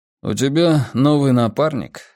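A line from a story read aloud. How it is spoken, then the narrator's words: Calm question, hint of jealousy. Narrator (Russian): спокойно спросил Волк, не в состоянии скрыть в голосе нотку ревности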